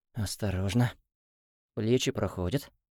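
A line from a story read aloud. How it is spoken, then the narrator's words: Muttering. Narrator (Russian): бормотал он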